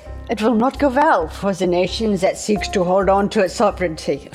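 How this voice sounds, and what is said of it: Poor put-on Indian-sounding accent. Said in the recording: “I'm so bad at accents. Klaus was sounding a little bit Indian there.”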